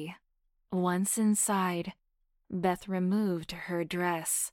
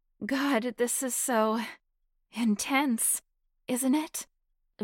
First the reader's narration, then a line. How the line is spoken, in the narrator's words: Beth gasped